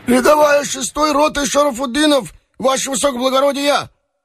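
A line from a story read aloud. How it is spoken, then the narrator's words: Deliberately hoarse shout. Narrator (Russian): старательно хрипло крикнул татарин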